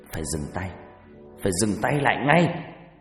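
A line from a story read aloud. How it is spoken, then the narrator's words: Growling. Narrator (Vietnamese): Bà Regina gầm gừ nói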